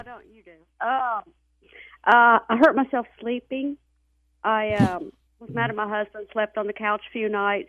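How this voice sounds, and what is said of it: Mississippi Southern accent. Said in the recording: “in Mississippi, please tell me she has an accent ... Hey, I do.”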